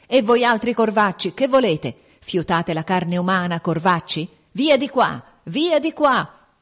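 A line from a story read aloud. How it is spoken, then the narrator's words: Sick man shouting. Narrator (Italian): l'infermo gridava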